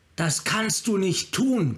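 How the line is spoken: Shrieking. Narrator (German): kreischte Tasigur

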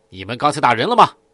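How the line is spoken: Stern questioning. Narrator (Chinese): 徐丽等人厉声问道

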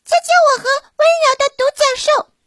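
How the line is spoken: Shouting. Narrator (Chinese): 有人在喊

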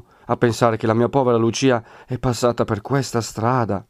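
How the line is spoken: Exclamation. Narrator (Italian): esclamò

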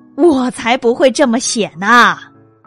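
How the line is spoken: Roaring lion. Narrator (Chinese): 狮子大吼

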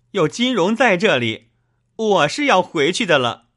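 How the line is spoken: Crying. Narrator (Chinese): 秦钟哭道

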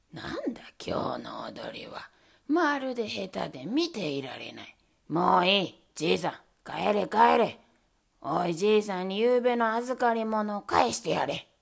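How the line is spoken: Displeased voice. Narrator (Japanese): と不機嫌な声で言いました

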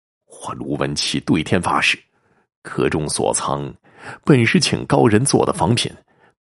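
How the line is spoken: Distraught, near tears. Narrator (Chinese): 卢文启欲哭无泪 解释

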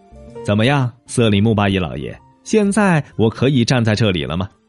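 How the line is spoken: Smiling question. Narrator (Chinese): 阿凡提笑了笑，问

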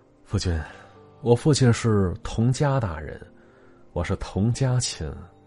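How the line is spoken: Slow. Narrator (Chinese): 谢琴缓缓说

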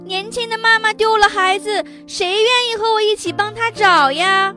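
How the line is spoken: Shouting while running. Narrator (Chinese): 小白兔 一边跑一边喊

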